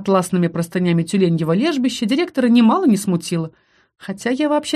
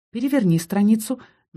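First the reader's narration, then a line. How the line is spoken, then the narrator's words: Gentle advice. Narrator (Russian): мягко посоветовал директор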